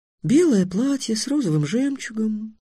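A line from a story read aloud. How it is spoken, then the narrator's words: Said thoughtfully. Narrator (Russian): задумчиво сказала Тиана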